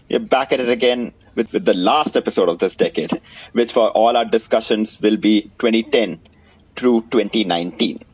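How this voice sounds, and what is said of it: Indian accent. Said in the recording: “in an Indian accent.”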